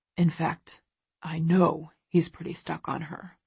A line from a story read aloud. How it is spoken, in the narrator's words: He pauses, then adds more quietly